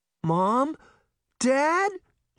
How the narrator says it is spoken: cried

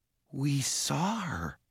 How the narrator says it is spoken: Jared said softly

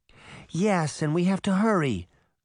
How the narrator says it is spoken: Goldie begged

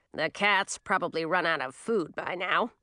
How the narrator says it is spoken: mumbled to herself

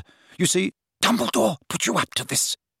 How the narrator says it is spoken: whispered Slughorn

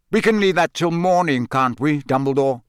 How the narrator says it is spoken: said Sirius harshly

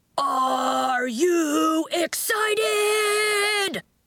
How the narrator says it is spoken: Coach called out

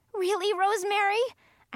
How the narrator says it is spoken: I cried

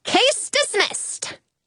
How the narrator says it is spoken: I yell

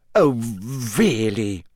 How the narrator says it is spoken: She sputtered, going rather red

